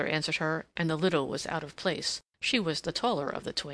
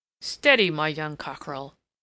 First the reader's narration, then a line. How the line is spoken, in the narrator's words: Levasseur laughed, but his laugh was not nice